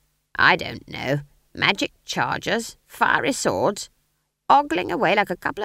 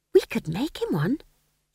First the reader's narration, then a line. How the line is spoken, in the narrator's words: she added wistfully